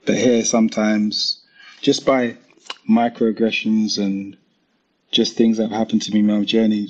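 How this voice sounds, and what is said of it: British accent. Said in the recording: “If I go to America, they'll hear my accent and I'm British.”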